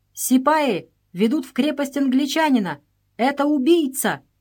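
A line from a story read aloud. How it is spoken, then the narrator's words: Shouting. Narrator (Russian): на площади Сагор кричал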